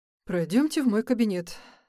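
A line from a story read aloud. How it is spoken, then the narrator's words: Sigh. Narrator (Russian): вздохнул врач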